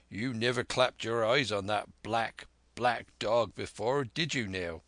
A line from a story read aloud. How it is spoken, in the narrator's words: said Long John, very sternly